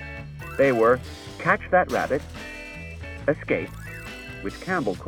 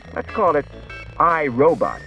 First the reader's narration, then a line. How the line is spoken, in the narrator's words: he said